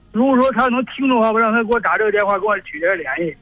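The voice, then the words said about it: Beijing accent. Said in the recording (Chinese): “听口音就能听出来这北京人”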